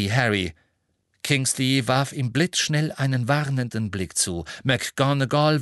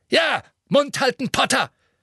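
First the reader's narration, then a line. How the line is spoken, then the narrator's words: Barked. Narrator (German): bellte Fudge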